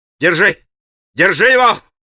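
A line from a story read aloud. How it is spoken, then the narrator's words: Yelled. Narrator (Russian): завопил он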